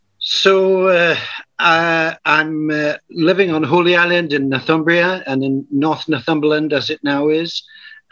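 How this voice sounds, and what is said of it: Non-American accent. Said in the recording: “as soon as they hear your accent, they're going to have some questions about who is this guy and where he's from”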